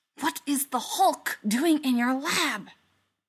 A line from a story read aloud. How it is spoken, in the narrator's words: whispers